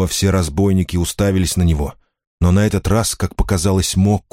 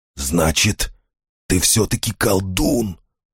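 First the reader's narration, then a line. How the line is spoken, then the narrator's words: Hoarse declaration. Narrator (Russian): заявил Хват хрипло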